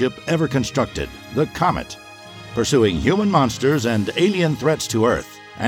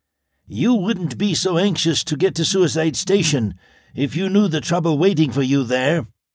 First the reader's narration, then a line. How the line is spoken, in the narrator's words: the Saturnian grunted